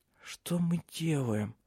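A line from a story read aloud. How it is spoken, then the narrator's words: Barely audible mumble. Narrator (Russian): едва шевеля губами, пробормотала Силе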